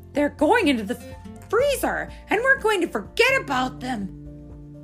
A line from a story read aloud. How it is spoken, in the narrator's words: cried Brother